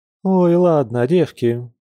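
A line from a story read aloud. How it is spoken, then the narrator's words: Sighing woman. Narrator (Russian): вздохнув, произнесла Катя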